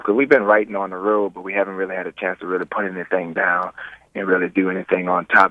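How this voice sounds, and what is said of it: Hoarse, strained voice. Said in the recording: “I feel like I'm losing my voice. I've been screaming all day.”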